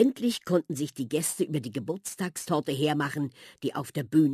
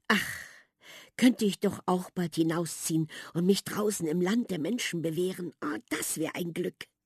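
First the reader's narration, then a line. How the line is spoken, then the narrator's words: Quiet repetition. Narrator (German): wiederholte Prinzessin Sapperlott leise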